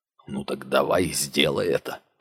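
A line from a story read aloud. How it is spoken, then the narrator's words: Muttered under breath. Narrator (Russian): пробормотал он себе под нос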